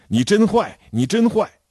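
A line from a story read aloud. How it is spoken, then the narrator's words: Clamoring. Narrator (Chinese): 他嚷着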